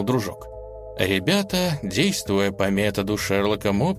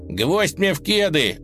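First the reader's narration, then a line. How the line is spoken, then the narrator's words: Howled. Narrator (Russian): взвыл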